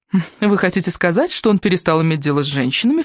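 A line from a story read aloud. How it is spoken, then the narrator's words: Scoffing snort. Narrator (Russian): фыркнула она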